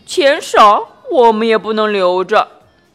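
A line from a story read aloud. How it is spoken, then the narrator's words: Sighing. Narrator (Chinese): 茉莉也跟着叹了一口气，说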